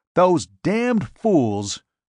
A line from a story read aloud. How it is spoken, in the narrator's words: he snapped angrily